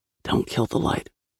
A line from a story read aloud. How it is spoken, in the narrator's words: Fox whispered